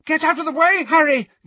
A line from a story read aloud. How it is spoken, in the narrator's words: yelled Neville, clearly determined to repair the damage